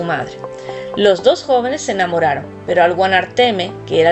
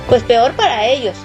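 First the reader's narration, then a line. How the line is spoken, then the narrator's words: Exclaimed. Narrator (Spanish): exclamó Tomás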